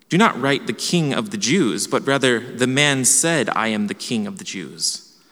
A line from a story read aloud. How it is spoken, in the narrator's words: Pilate answered,